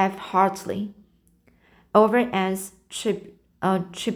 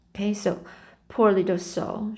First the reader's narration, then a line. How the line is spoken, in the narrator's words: she murmured